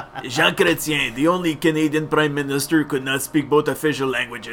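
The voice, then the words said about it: Put-on French accent sounding Russian. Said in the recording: “doing a French accent? But you sound Russian.”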